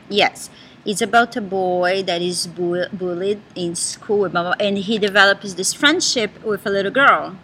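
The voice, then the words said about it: Portuguese accent in English. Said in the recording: “It's my Portuguese. ... Accent.”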